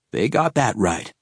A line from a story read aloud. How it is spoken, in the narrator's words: he said